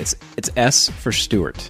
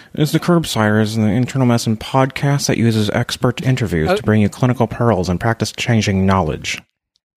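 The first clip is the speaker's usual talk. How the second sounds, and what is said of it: Imitates another person's voice. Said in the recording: “I'll try my best Paul impression. ... It sounds like Buffalo Bill from Silence of the Lambs.”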